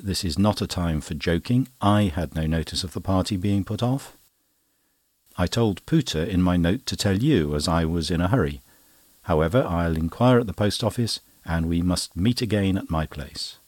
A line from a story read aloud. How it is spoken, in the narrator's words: Cummings sharply said